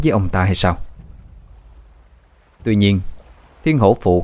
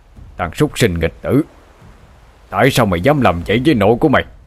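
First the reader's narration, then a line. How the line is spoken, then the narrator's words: Angry shout. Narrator (Vietnamese): Cậu hai quát lên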